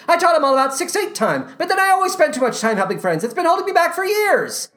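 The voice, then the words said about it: Breathless, rushed musical-theater line delivery. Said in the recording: “everyone speaks in this breathless, poorly directed musical theater way ... they're just racing to finish their lines before the clock runs out ... my impression of their delivery”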